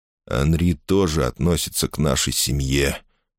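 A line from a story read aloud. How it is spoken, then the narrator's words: Dull muffled voice. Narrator (Russian): глухо произнес Жюль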